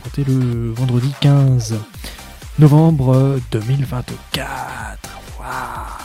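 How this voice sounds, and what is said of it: Put-on unusual voice. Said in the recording (French): “je prends une voix comme ça”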